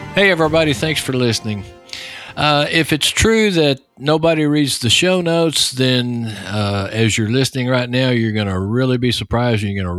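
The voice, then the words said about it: Texas accent. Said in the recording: “With my Texas accent”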